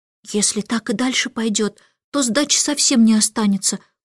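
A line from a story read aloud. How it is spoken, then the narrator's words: Whisper. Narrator (Russian): прошептала Джейн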